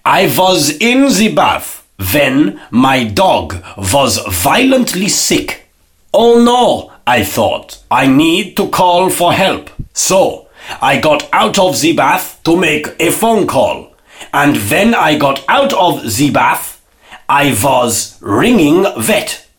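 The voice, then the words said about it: Put-on foreign accent. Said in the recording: “I have to put on an accent. ... I had to put on an accent there, obviously, to make the joke work”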